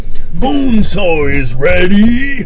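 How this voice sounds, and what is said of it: Imitated movie character voice. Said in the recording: “that was not an audio clip from the movie... me doing the voice”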